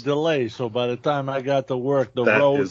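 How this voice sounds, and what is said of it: Put-on New York accent. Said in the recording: “That sounds like a New York accent, not a Wisconsin accent... you sounded like Andrew Dice Clay.”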